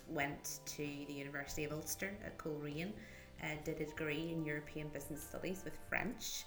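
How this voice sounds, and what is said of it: Northern Irish accent. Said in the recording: “I'm originally from Northern Ireland, as you can probably tell from the accent, um, from County Down”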